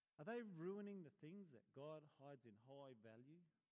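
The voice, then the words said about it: Odd put-on accent. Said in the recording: “Oi? What accent was that?”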